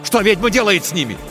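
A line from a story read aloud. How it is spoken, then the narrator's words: Shouted. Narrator (Russian): крикнул Тихон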